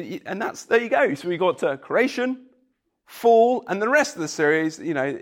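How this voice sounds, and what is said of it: Usual voice. Nothing is said of it.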